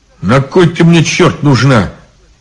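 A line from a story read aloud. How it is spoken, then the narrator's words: Rough, rude. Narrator (Russian): грубо сказал Иван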